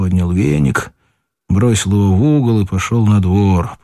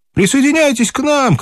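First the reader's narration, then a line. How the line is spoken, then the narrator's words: Shouted. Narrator (Russian): крикнул он Кате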